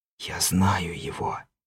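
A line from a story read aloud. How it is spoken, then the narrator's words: Whisper. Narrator (Russian): прошептал я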